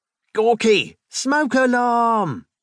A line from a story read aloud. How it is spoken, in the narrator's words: Clovenhoof yelled